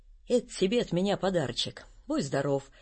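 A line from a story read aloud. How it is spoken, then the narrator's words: Very gentle. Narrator (Russian): говорит очень ласково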